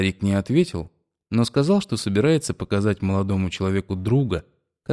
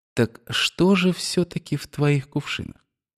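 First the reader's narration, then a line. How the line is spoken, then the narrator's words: Insinuating imitation, question. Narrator (Russian): Имитируя молодого человека, он вкрадчиво спросил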